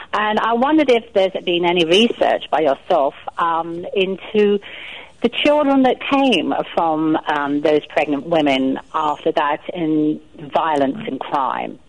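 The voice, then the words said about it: English accent. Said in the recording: “Your accent gave you away.”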